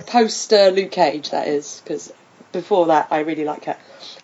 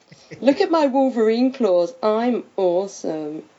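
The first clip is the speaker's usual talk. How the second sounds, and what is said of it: Imitates a TV character's voice. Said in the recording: “my Claire Temple impression.”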